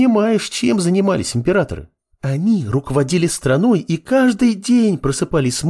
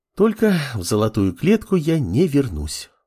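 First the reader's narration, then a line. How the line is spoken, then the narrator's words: Sigh. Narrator (Russian): вздохнула левитание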